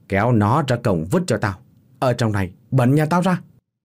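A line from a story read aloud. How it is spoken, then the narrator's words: Old man barking. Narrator (Vietnamese): lão biểu quát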